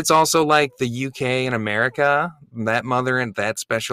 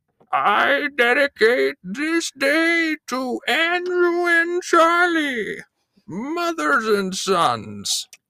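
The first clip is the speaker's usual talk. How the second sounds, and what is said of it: Old lady voice. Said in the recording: “Can I just do an old lady? ... Sure, you could do an old lady.”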